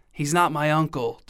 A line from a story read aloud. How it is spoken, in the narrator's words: Donna whispered back